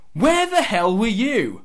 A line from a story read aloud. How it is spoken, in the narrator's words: Shane Douglas and Buff Bagwell are shouting at Russo, saying